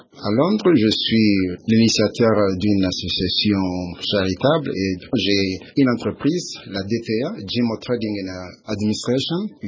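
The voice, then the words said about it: French with an English accent. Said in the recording (French): “vous avez déjà un accent anglais”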